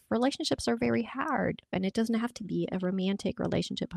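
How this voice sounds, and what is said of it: Strong accent. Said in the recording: “I went full blown in my accent there, hard.”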